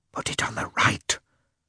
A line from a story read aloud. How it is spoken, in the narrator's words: whispered Oblonsky to Lievin